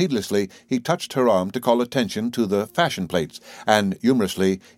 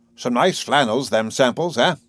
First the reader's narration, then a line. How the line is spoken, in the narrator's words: With unnecessary jauntiness, he chuckled